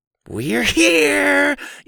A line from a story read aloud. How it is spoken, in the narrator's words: Eli screeched